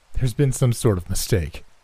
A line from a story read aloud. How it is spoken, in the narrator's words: my friend exclaimed, sounding remarkably similar to much of the bargaining I've heard in my vast lifetime